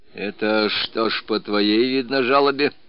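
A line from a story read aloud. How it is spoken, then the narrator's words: Glum question. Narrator (Russian): уныло спросил Петр Васильевич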